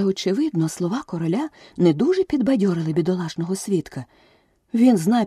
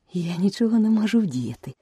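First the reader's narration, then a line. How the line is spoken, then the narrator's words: Gentle explanation. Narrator (Ukrainian): лагідно пояснила Аліса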